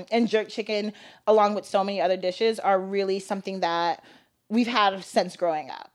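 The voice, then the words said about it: Valley girl accent. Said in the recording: “you have like a very, if I may say it, Valley girl accent. ... It's so Valley.”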